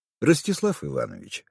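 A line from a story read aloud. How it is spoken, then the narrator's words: Calm interjection. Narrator (Russian): спокойно вмешался Михаил Петрович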